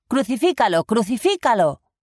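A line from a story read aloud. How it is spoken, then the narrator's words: Crowd shouting. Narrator (Spanish): los sumos sacerdotes y los guardias gritaron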